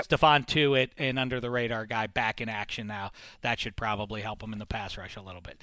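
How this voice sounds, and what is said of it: Hoarse, husky voice. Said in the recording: “I'm losing my voice. Can you hear that? ... You're husky.”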